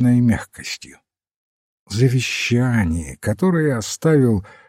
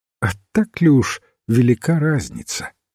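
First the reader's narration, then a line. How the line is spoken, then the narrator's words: Strangely patient question. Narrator (Russian): спросил Браун все тем же странно терпеливым тоном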